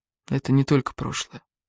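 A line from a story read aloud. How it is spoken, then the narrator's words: Very quiet. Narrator (Russian): сказал очень тихо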